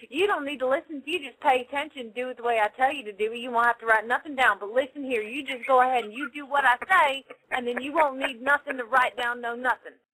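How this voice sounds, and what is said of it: Put-on southern accent. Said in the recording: “With a southern accent. You do it with a southern accent”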